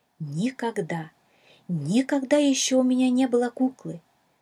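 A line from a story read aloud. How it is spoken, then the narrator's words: Excited exclamation. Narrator (Russian): Взволнованно воскликнула Шала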